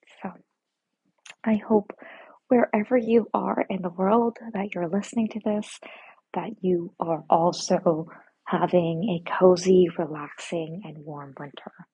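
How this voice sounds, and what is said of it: Soft whispering. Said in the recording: “just kind of whispering to each other”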